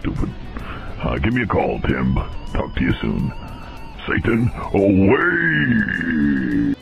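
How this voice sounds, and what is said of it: Voice-changer Satan voice. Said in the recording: “That is obviously not the real Satan. That's just some asshole with a voice changer.”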